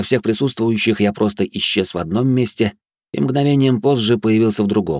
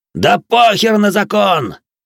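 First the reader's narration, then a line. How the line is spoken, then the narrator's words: Roaring. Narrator (Russian): взревел стрелок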